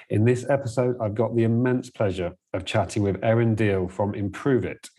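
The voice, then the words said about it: Dry English accent, podcast voice. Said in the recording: “You have like a natural podcast voice ... my rather dry English accent”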